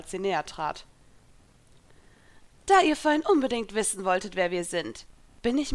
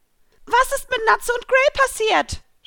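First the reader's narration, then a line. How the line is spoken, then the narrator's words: Shouted out. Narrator (German): schrie hinaus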